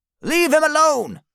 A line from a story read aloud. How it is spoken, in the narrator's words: Papa Smurf shouts to the wizard